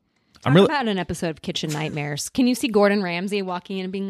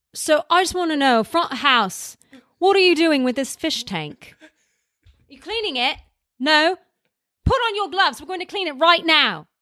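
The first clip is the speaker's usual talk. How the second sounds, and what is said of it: Poor Gordon Ramsay impression. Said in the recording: “It's a terrible Gordon Ramsay impression”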